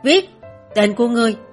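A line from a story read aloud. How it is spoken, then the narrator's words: Angry. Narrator (Vietnamese): Hắn tức giận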